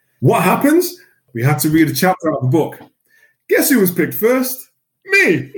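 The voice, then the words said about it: Soft Mancunian accent. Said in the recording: “a full-blooded, thick Mancunian accent, thicker than this one. It's softer now, but thicker than this one.”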